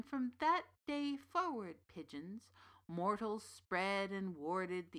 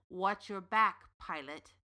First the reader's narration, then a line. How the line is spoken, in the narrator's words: Baba Yaga sneered